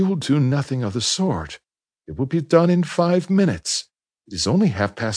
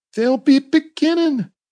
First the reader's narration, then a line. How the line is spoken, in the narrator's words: the boy half cried, half shouted